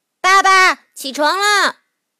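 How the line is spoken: Calling to wake. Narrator (Chinese): 艾迪叫醒了国王爸爸

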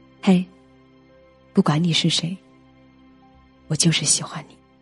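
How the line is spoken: Soft. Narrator (Chinese): 轻声的告诉你说

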